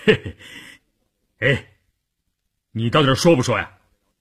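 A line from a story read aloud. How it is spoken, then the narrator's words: Laughing. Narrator (Chinese): 关山林听完这话笑了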